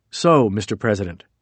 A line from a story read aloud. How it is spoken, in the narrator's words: Cohn said